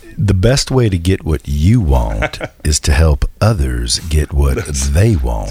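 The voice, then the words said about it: Smooth radio announcer voice. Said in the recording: “It's that radio voice.”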